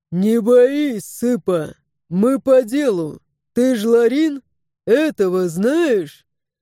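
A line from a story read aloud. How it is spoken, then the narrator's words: Deep bass sailor. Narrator (Russian): Моряк пробасил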